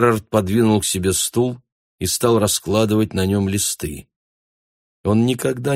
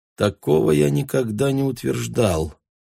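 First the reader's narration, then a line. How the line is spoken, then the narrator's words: Quiet objection. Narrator (Russian): негромко возразил Джерард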